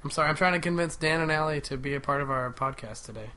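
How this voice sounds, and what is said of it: Sick-sounding voice. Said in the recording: “pardon my voice. I'm still sick.”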